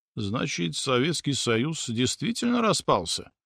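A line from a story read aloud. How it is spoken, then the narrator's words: Said quietly. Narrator (Russian): тихо произнес Сталин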